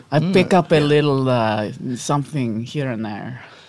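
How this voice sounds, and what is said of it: Affected cosmopolitan accent. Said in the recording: “Cosmopolitan accent.”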